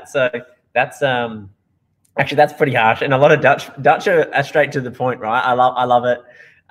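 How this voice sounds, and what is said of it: Accent sounding like Steve Irwin. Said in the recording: “could ... please fix his accent? Like it's awful... I sound a little bit like Steve Irwin, or a lot like Steve Irwin”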